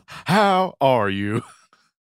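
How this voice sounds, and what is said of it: Imitates another person's voice, unconvincing. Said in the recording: “your Barack Obama impression ... I maybe have heard better impressions”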